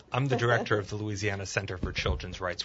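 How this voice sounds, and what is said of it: Polished radio announcer voice. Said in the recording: “Radio voice.”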